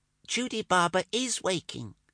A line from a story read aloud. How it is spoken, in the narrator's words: piped a small voice from the mosquito curtains